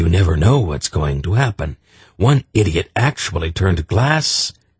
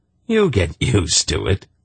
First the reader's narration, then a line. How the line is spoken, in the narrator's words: he laughed